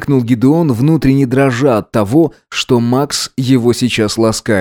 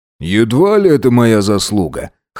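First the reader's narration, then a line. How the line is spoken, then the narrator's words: Snorting. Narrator (Russian): хмыкнул он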